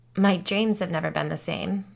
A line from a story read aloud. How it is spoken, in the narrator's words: Tippi said with a humorless laugh